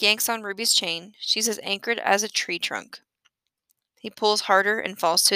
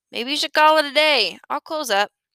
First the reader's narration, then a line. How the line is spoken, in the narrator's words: he yells